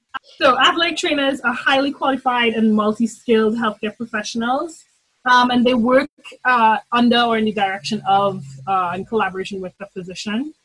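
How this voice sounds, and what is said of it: Trinidad and Tobago accent. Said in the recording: “I'm originally from Trinidad and Tobago, hence the glorious accent that will come out of my mouth too often”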